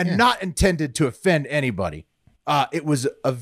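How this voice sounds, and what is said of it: Usual voice. Nothing is said of it.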